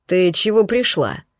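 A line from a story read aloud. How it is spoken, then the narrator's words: Displeased grumble. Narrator (Russian): недовольно буркнула моя потенциальная жертва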